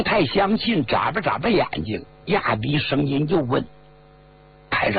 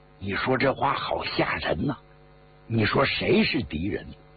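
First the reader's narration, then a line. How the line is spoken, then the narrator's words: Hushed question. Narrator (Chinese): 朱娃子 压低了声音 问排长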